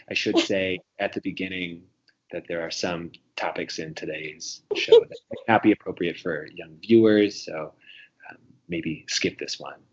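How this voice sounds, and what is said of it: Imitates another person's voice. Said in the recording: “good Ira Glass impersonation”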